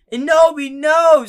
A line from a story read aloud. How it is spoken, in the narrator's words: screamed Draco